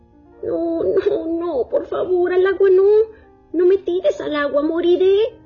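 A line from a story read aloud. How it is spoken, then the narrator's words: Moaning turtle. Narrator (Spanish): La tortuga replicó gimiendo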